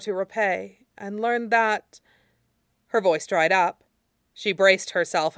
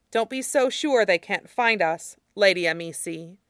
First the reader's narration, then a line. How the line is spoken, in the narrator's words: Kue said sharply